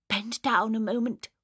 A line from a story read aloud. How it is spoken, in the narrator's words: whispered her mother